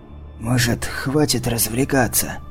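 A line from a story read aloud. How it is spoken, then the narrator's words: Hoarse, pained, injured throat. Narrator (Russian): хрипло проговорил Ришье, кривясь и гримасничая от боли в изувеченном горле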